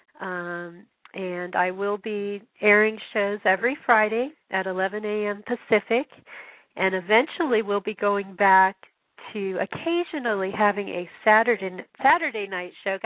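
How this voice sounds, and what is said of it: Strained, failing voice. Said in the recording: “I can't even talk anymore... I'm losing my voice.”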